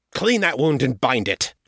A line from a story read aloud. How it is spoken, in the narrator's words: snapped